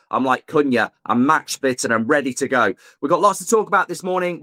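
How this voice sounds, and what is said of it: Hoarse, sore-throat voice. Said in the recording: “My voice isn't at it. I've got a sore throat”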